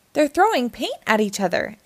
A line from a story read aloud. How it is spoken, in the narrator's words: exclaimed Lucy